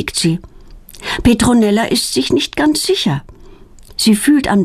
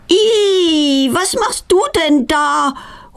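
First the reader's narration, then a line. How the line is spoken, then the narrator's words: Horrified cry. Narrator (German): ruft sie entsetzt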